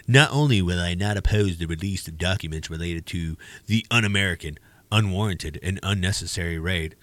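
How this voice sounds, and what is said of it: Poor imitation of another person's voice. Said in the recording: “I do a horrible Trump impression.”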